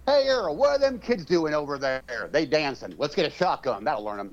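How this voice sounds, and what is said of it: Put-on rural American accent. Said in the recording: “that would be in Oklahoma, maybe. ... I used the wrong accent”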